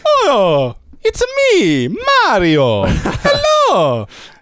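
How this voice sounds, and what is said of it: Mario impression. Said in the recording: “a Mario”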